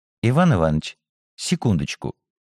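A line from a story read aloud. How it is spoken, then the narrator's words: Quiet voice. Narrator (Russian): тихим голосом сказал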